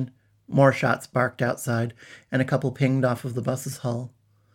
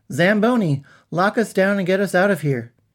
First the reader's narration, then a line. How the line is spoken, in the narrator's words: He called out